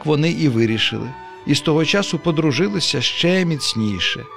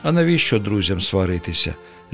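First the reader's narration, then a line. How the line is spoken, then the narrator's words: Sigh. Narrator (Ukrainian): зітхнув чоловічок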